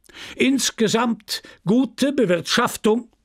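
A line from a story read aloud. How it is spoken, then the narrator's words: Shouting. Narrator (German): schrie der Vorsitzende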